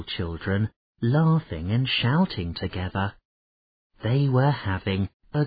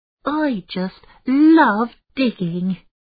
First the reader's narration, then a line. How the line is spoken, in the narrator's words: he shouted happily